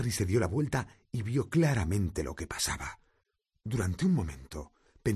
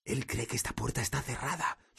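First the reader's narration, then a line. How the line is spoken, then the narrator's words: Whispered. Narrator (Spanish): susurró Harry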